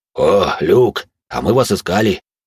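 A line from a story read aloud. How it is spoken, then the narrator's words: Deep bass voice. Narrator (Russian): пробасил Дежуриньи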